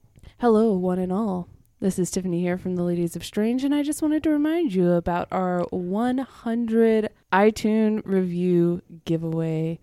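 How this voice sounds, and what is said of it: Smooth public-radio announcer voice. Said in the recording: “you want to use your NPR voice”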